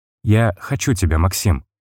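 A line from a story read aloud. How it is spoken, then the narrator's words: Intimate whisper. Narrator (Russian): прошептала она мне в губы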